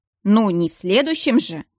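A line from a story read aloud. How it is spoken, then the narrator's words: Snort. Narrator (Russian): фыркнул Нерайн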